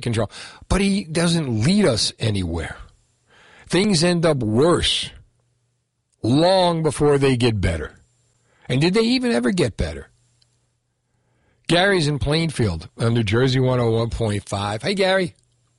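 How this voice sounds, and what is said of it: New Jersey Hudson County accent. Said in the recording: “you have your Hudson County accent like I do”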